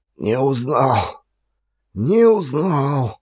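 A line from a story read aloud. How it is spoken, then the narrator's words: Mumbling. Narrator (Russian): бормотал он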